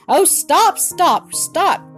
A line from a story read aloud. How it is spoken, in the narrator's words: cried Bobby